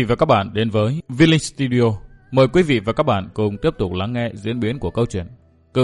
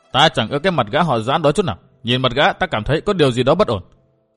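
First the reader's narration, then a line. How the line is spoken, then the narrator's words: Resentful, unsteady. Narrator (Vietnamese): Lâm Tứ hậm hà hậm hực, gã lảo bảo nói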